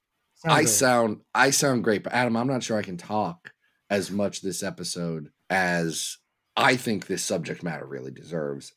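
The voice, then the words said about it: Hoarse, sore-throat voice. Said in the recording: “I have a frog in my throat this week... I got sick and now I have a sore throat”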